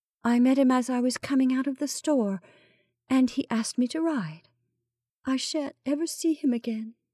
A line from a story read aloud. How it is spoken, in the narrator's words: Melissa returned faintly